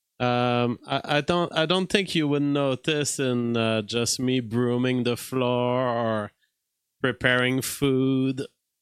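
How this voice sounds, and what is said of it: Quebecois French-Canadian accent. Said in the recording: “I think I have a very Quebecois outlook on life. And if you weren't hearing my accent”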